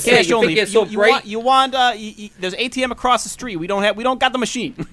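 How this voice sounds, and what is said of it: Put-on accent. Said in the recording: “I was just copying that... I can't keep that accent up. That was good.”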